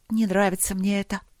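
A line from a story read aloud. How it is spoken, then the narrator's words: Sad sighing young woman. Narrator (Russian): тоскливо вздохнула принцесса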